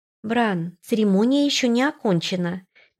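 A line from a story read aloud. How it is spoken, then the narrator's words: Soft gentle voice. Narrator (Russian): мягко произнесла она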